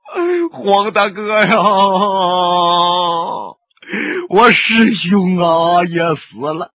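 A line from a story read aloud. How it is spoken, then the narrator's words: Crying. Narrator (Chinese): 这仨哭了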